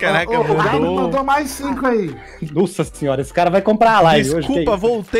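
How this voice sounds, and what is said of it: Usual voice. Nothing is said of it.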